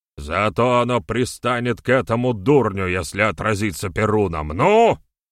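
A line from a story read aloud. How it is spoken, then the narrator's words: Commanding bark. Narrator (Russian): Рявкнул командным голосом Седой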